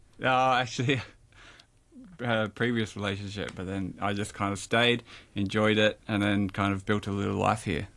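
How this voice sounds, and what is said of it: Australian accent. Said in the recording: “it's pretty obvious you're from Australia because you can hear it in the accent”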